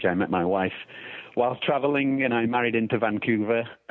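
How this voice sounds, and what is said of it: English accent. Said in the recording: “I don't have a North American accent. I'm actually from England originally”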